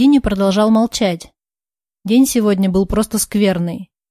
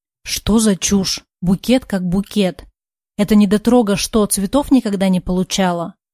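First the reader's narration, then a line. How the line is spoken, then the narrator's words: Hissed. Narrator (Russian): прошипела Соня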